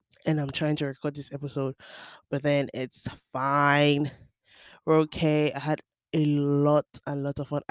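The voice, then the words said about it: Cracked, just-woken-up voice. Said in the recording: “my voice sounds cracked because I literally just woke up”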